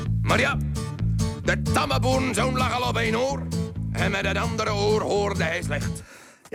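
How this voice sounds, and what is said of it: Put-on rural Dutch farmer accent. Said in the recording (Dutch): “een boers accent opzetten”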